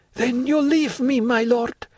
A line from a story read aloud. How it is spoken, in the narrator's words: Aide became pale, exclaimed in a voice hoarse with tears